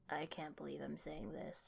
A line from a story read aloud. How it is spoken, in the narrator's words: he muttered to himself